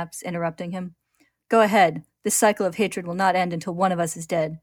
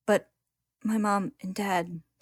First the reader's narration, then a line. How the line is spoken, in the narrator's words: she says in a quiet and trembling voice